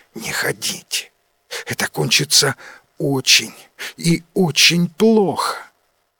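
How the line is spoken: Whisper. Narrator (Russian): Варна шепотом сказала

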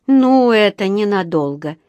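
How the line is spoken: Gloomy prediction. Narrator (Russian): мрачно предрекла миссис Бёрд

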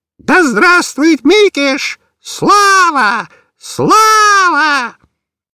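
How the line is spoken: Parrot shrieking. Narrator (Russian): Попугай же прокричал

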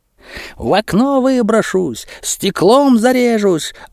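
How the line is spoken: Drunken self-pitying yelling. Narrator (Russian): орал изрядно набравшийся Плещеев, очень жалея себя и откровенно упиваясь общим вниманием

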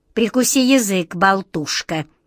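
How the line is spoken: Stern rebuke, aunt. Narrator (Russian): Строго одернула ее тетушка

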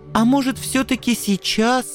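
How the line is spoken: Pleading. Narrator (Russian): взмолился Анцифер

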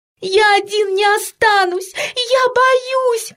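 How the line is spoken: Sobbing. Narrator (Russian): рыдал Петька

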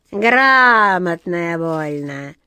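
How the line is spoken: Spiteful smirk, cat. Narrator (Russian): злобно усмехнулась черная кошка

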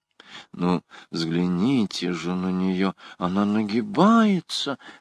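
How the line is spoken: Whisper in ear. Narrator (Russian): шептала ему на ухо госпожа Алоиза

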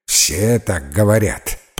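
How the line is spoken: Grumble. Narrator (Russian): пробурчал мистер Оррок

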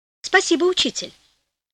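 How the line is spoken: Naive exclamation. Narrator (Russian): воскликнул простодушно Флорио

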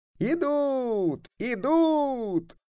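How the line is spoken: Boys shouting. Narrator (Russian): Мальчишки, которые с высоких штабелей караулили дорогу, закричали

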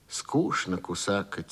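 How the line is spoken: Quiet. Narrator (Russian): тихо проронила Лёля

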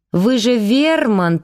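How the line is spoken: Drawl. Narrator (Russian): протянула

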